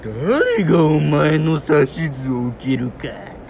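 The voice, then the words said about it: Imitated anime villain character voice. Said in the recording (Japanese): “無惨さん”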